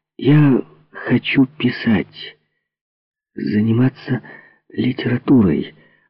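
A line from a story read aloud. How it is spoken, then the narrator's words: Timid babbling. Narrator (Russian): робко пролепетала я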